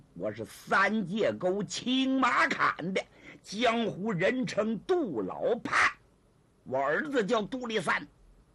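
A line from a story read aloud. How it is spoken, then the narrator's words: Cold sneer. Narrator (Chinese): 这人冷笑一声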